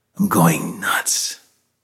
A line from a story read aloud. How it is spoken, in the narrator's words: Loyce whispered